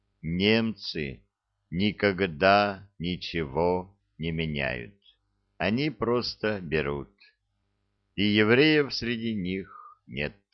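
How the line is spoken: Slow, deliberate. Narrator (Russian): Хозяин медленно и раздельно произнес

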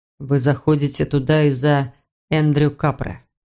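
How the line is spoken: Soft speech. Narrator (Russian): мягко произнес он

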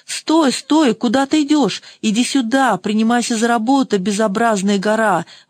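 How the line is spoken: Exclaiming. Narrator (Russian): воскликнул Чичун

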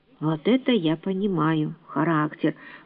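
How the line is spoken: Mutter. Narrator (Russian): пробормотал Финес

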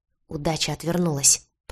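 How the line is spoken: Angry hiss. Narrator (Russian): прошипел он

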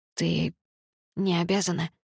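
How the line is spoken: Soft male whisper. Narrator (Russian): тихо прошептал он

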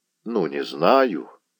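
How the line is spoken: Barely audible, choked with shame. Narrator (Russian): проговорил казак едва слышно, потому что горло его стеснили разом и стыд, и жалость

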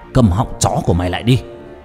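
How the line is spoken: Roaring. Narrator (Vietnamese): Trung Tài gầm lên

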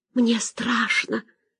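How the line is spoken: Whispered. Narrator (Russian): прошептала она

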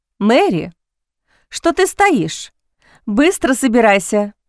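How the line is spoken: Interrupting exclamation. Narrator (Russian): Не дав племяннице даже договорить, воскликнула миссис Вустер

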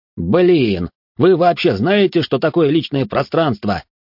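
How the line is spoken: Shouted through a breach. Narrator (Russian): прокричал Гордей в пролом

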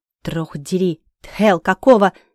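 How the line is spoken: Dragon's growl. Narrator (Russian): рыкнул дракон

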